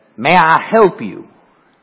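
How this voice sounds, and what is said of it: Imitates strong Kentucky accent. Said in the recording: “in a very strong Kentucky accent, and I'm going to do my best to imitate her ... Wow, that's a strong accent.”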